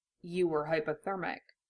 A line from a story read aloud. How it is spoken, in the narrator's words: Roy said quietly